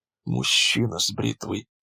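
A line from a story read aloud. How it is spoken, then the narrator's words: Female whisper. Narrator (Russian): прошептала она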